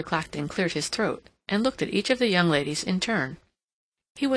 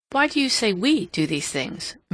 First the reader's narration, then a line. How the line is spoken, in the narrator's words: Mary interposed rather sharply